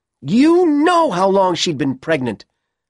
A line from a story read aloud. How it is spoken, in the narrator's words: Ellen shouted